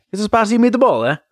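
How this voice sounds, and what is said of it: Put-on vague Italian accent. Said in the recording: “vague foreign accent ... cultural appropriation voice ... I'm just doing Italian people”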